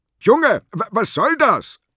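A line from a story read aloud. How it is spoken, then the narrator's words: Angry shout. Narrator (German): rief der Fahrgast verärgert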